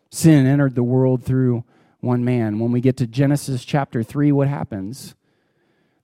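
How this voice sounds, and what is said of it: Usual voice. Nothing is said of it.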